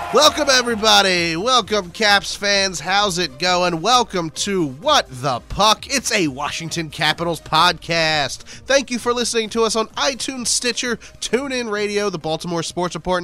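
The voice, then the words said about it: Nasal, congested sick voice. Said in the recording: “I do sound like crap because I feel like crap... My voice is all messed up because of a cold... I will just sound nasally”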